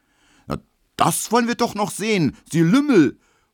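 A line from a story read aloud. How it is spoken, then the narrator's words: Angry flushed shout. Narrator (German): ruft Emil Kubinke, rot wie ein Puter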